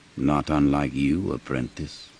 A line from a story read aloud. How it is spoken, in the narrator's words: the Emperor said quietly